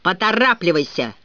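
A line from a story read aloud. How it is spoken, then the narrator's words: Growl. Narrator (Russian): прорычал Дадли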